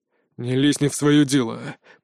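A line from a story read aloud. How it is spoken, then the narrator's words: Growling. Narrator (Russian): прорычал Фейт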